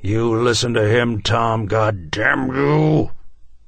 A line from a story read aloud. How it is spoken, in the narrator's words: the president roared